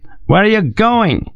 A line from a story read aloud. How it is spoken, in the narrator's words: shouted in French across the chaos